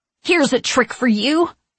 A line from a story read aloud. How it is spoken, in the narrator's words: I shout